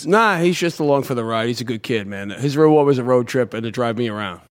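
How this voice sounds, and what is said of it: Thick regional accent. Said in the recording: “what part of the South are you from? Totally kidding, dude. ... that accent's thick as fuck, dude.”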